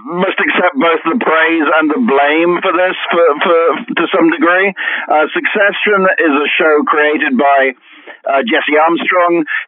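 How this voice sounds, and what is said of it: British accent. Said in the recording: “you can tell by my accent, hopefully, that I'm that I'm British”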